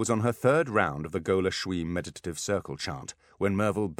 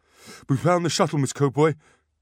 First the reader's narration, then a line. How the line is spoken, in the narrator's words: he panted